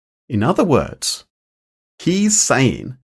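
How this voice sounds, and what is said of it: Usual voice. Nothing is said of it.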